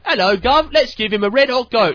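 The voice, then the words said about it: Put-on English accent. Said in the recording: “Now, that's an English accent.”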